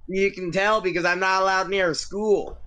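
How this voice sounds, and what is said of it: Put-on Southern accent. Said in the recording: “My southern accent has been in the works for a very long time.”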